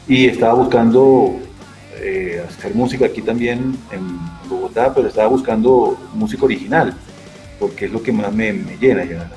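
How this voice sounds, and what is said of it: Venezuelan Spanish accent. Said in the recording (Spanish): “como se habrá podido dar cuenta por mi acento ... soy venezolano”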